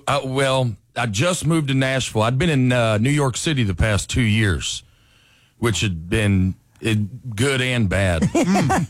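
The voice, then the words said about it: Southern American accent from Alabama. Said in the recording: “let's pinpoint the accent right away. You grew up where? ... North Alabama, right outside of Huntsville.”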